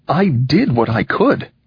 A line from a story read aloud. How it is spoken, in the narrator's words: said Enoch, hotly